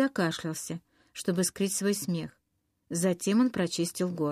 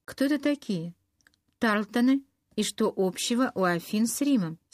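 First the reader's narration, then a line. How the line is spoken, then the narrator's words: Plain. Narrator (Russian): спросила она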